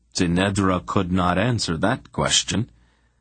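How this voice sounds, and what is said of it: Usual voice. Nothing is said of it.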